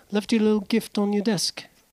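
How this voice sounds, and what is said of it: Imitates another person's voice. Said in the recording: “I'll try my accent ... Is that spot on? Did I nail it? ... I think you should just keep the American accent, like your normal one.”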